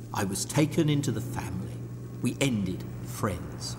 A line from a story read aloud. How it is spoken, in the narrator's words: nursing a massive hangover, he murmured